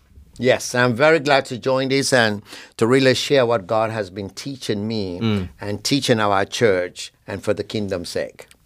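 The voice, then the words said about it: Noticeable non-native accent. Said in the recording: “has his accent ... These three guys are talking different.”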